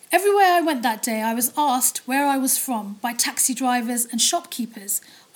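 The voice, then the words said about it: British accent. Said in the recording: “I figured my British accent gave me away.”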